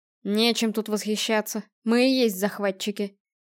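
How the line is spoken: Gloomy. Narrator (Russian): мрачно напомнил Стерлинг

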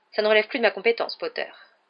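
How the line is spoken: Curt interruption. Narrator (French): coupa sèchement le professeur McGonagall

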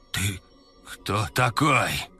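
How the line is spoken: Hoarse rasp. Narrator (Russian): прохрипел Заур

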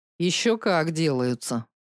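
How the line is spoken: Grumbling. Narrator (Russian): проворчал Мик

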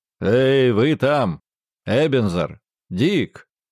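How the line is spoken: Rich cheerful laughing shout. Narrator (Russian): засмеялся, трясясь всем телом, и крикнул плавным, звучным, сдобным, но приятным и веселым голосом

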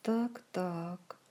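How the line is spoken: Gloomy interjection. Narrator (Russian): мрачно вставил Кантор

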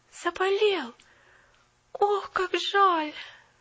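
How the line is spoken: Moaned. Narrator (Russian): простонала Поллианна

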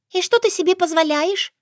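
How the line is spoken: Angry squeak. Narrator (Russian): гневно пискнула Шушанна

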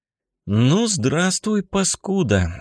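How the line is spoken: Soft, friendly. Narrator (Russian): сказал Мишка, мягко всем видом своим демонстрируя дружелюбие и готовность к диалогу

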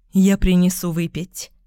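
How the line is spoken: Strikingly calm. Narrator (Russian): сказала Катрин поразительно спокойным голосом

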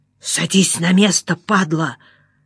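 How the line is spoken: Hissed. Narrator (Russian): зашипел на меня чугунная рожа

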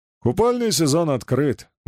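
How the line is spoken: Cheerful reply. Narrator (Russian): бодро откликнулся Ерофеев

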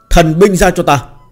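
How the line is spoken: Sudden loud shout. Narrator (Vietnamese): gã đột nhiên hét lớn

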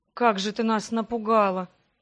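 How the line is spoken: Sighed. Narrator (Russian): Вздохнул

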